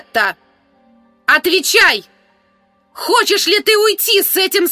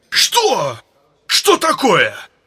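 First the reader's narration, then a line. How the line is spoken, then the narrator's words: Sudden growl. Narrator (Russian): Вдруг зарычал Крахан Крайт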